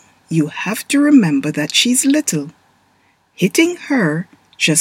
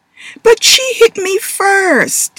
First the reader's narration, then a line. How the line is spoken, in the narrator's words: Taylor whined